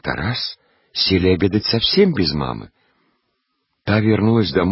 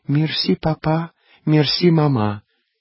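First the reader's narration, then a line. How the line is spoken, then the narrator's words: Thin little girl's voice. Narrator (Russian): говорила тоненьким голосом умной девочки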